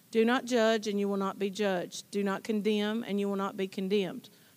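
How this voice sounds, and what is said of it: Clear teacher-like reading voice. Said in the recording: “She's got a great teacher voice.”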